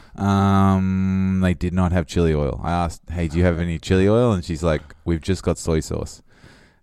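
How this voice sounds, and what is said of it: Australian drawl. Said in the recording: “she didn't understand my Australian drawl”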